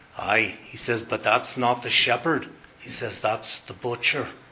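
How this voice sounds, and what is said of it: Weak put-on Irish accent. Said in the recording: “I'm not good in an Irish accent”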